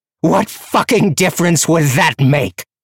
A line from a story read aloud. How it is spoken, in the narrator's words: she roared